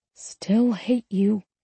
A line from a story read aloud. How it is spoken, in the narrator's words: I mumbled into his mouth